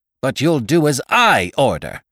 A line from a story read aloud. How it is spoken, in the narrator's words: he thundered